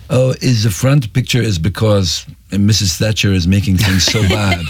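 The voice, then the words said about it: Put-on vague European accent. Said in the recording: “So it was a French accent ... I don't know what that accent was. ... That was German, ... Euro rock accent.”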